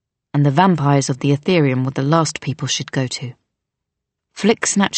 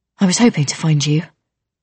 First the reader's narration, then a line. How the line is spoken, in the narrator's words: Flick said breathlessly